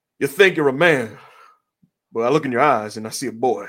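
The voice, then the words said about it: John Cena impression, Southern accent. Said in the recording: “the unusual John Cena Southern accent that for some reason emerges”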